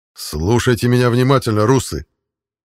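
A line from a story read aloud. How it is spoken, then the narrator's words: Angry voice. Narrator (Russian): Зло произнес я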